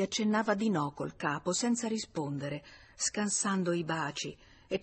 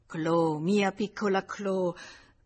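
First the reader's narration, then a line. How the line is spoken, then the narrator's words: Man stammering. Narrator (Italian): balbettava lui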